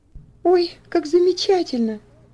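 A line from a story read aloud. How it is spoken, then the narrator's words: Joyful exclamation. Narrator (Russian): воскликнула Элси, радостно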